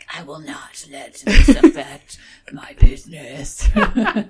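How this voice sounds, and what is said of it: Deep menacing Darth Vader voice. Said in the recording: “In your best Darth Vader voice.”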